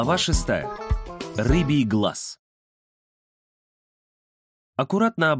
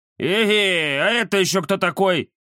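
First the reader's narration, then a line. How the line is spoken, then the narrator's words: Nasal inquiry. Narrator (Russian): Гнусаво поинтересовалась физиономия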